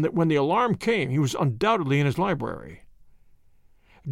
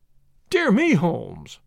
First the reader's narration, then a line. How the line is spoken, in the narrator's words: I cried